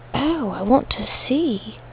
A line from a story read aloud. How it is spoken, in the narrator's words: under her breath